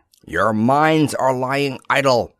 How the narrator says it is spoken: Faggard snarled

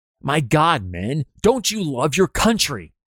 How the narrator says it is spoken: an infuriated Union General Banks exclaims at his faltering men

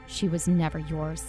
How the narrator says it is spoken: Emmett hissed under his breath

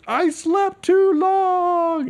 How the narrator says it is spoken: he literally screams

